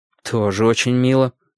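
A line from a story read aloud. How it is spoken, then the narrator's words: Gloomy. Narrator (Russian): мрачно заметил я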